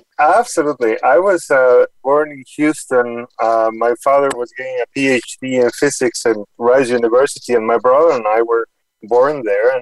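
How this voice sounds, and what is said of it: Non-Boston accent. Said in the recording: “you're not joining us with a typical Boston accent”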